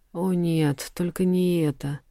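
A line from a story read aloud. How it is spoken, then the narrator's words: Girl's doomed exhale. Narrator (Russian): Обреченно выдохнула девушка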